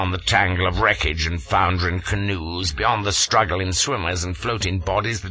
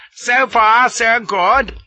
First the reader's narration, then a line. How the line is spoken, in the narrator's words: cries